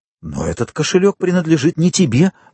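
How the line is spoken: Exclaiming. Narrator (Russian): воскликнул Морель

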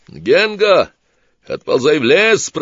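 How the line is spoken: Shouted. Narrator (Russian): прокричал Сварог

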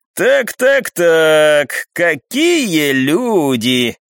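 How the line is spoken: Loud exclamation. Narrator (Russian): громко воскликнул Сёмушкин

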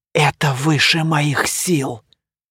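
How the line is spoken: City founder whispering. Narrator (Russian): шептали губы основателя города

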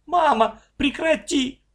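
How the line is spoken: Shouting. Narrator (Russian): закричала

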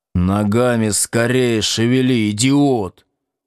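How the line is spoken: Hissed from mouth corner. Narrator (Russian): прошипев краем рта

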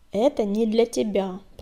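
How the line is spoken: Growled. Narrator (Russian): прорычал коготь

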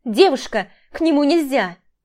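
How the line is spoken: Wailing shout. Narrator (Russian): вопила Катя

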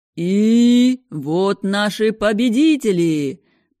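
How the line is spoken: Booming announcer. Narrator (Russian): прогремел ведущий

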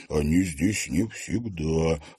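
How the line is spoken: Low voice. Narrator (Russian): вполголоса произнес Димка

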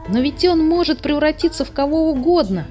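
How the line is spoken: Exclamation. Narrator (Russian): воскликнул Сниф

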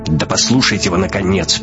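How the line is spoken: Sharp shout. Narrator (Russian): прикрикнул Шибанов

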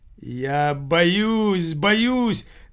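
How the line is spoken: Wail. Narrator (Russian): завопил Пчелкин

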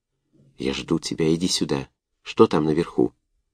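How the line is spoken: Faint soft whisper. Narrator (Russian): Едва слышный мягкий шепот повеял на него из непроницаемой глубины блиндажа

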